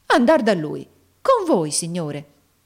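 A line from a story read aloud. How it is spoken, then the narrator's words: Exclaimed. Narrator (Italian): esclamò Nicola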